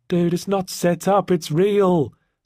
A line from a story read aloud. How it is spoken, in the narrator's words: said Jemima, desperately